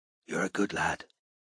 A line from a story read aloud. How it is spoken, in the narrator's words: whispered Ted